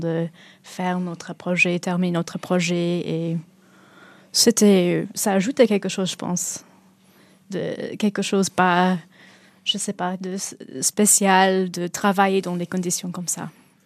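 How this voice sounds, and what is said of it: Welsh British accent speaking French. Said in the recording (French): “votre accent britannique ... en tant que galloise, ça ressemble un peu l'accent un peu irlandais parfois”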